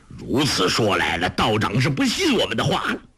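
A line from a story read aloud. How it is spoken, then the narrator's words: Angry. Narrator (Chinese): 韩宝驹怒道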